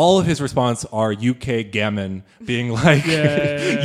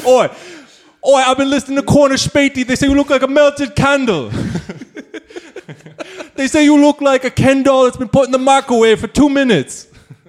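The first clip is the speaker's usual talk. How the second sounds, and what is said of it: Bad put-on British accent. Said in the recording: “my accent is bad ... Your accent's horrible”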